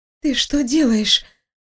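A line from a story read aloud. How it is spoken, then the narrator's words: Hoarse, unfamiliar voice. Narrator (Russian): прохрипела, не узнавая собственный голос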